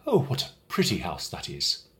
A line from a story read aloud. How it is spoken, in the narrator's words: they would exclaim